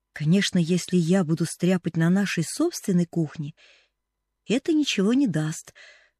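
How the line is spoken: Plain. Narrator (Russian): сказала Поллианна

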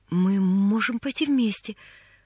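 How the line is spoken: Timid. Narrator (Russian): робко начала Поллианна

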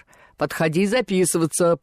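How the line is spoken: Deep bass voice. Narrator (Russian): пробасил он

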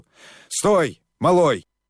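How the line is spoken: Hoarse, strained exhale. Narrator (Russian): Хрипло, с трудом, выдохнул он

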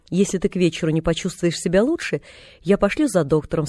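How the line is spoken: Plain. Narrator (Russian): сказала тетя Полли

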